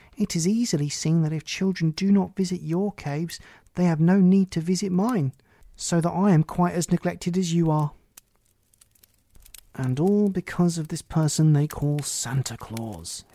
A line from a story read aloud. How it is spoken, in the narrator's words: exclaimed the demon of envy